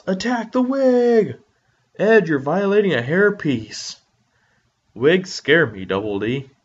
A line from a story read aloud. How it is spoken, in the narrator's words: Ed yells